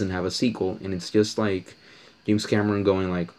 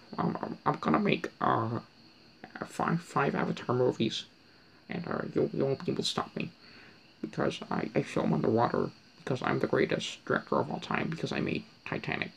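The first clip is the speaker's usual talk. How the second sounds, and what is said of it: Imitates a film director's voice. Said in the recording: “That's my impression of pretty much every director from like the 70s, you know, the new Hollywood directors”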